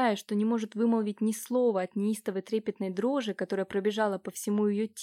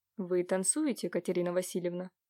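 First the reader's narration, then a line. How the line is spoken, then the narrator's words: Muffled question. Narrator (Russian): Воронцов глухо спросил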